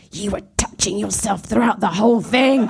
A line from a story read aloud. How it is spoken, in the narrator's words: she hissed at me